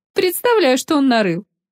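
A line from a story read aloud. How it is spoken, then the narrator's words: Young woman's chuckle. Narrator (Russian): хохотнула неизвестная девица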